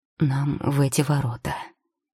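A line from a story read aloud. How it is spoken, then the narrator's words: Quiet speech. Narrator (Russian): тихо сказал Тео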